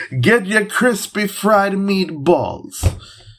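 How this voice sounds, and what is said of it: Bad put-on Italian accent. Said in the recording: “I want to do an Italian accent, but I don't think I should ... Yeah, it was terrible.”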